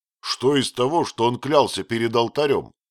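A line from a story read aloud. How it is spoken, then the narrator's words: Rude interjection. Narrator (Russian): грубо вмешался Фриц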